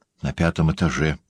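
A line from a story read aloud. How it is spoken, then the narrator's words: Whisper. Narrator (Russian): шепнул мне Лабульбен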